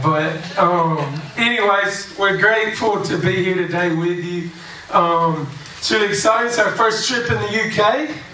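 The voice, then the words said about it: Southern US Alabama accent. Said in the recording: “I'm from Alabama. We speak a little country down there”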